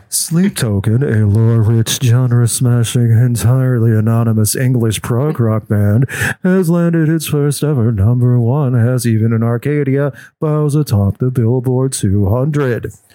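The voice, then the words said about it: Mock NPR public radio voice. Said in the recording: “do my NPR voice ... It gets the NPR voice. It's the NPR voice. I'm quite skilled at it ... You need to drink less water and have more of that mouth smack.”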